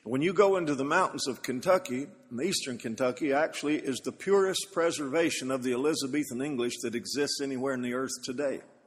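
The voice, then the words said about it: Eastern Kentucky mountain accent. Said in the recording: “I come from hillbilly stock in Kentucky ... Some of you hear this as an accent, and some of you hear it as an affliction.”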